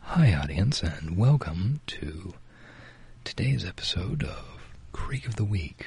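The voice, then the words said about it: Polite NPR-style radio host voice. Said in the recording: “let's do an impression of Creek of the Week as an NPR show ... Politely. That's the important thing. It's polite.”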